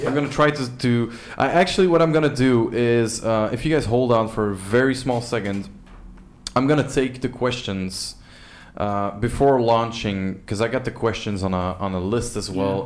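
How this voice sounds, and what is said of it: Strained, worn-out voice. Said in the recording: “as you can hear, my voice is giving out.”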